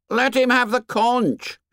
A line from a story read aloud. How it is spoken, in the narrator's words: shouted Piggy